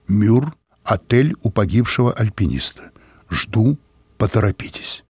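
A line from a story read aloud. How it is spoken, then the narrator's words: Solemn declamation. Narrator (Russian): Хозяин торжественно продекламировал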